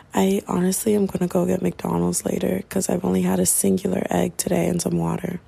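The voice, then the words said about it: Raspy voice. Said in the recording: “My voice is still raspy”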